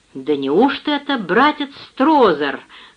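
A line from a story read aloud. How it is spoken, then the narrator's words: Exclaimed in unison. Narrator (Russian): хором воскликнули они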